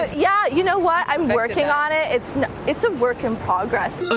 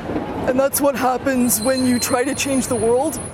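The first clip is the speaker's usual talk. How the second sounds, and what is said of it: Deep-voiced imitation of a woman. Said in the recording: “imitate Holmes' deep, one-of-a-kind voice ... your best impression ... Wow, you got the deep voice.”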